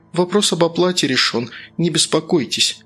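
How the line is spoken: Soft, smiling. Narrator (Russian): мягко опередила Алла, улыбнувшись

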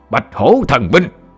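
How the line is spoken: Loud roar. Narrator (Vietnamese): cậu đại gia lớn giọng gầm lên

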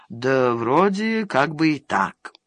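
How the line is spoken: Hesitant mumble, burly man. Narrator (Russian): рослый усач, одолеваемый внутренними борениями, промямлил

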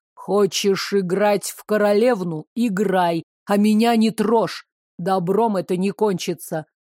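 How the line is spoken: Near growl. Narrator (Russian): почти прорычал он

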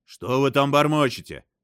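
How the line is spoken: Shout. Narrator (Russian): крикнул Раджит

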